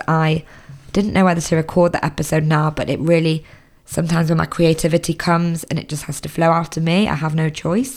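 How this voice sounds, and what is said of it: Hoarse voice. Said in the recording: “as you can hear, my voice is getting quite hoarse ... I have been suffering with a sore throat the past few days”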